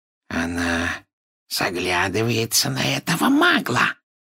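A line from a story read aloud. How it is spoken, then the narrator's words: Malicious hiss. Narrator (Russian): прошипел Морфин, злобно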